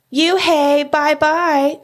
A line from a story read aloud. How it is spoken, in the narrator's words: she yelled